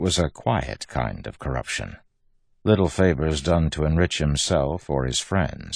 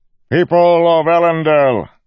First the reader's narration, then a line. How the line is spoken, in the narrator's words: Governor Innate said, his voice echoed across the square, loud and clear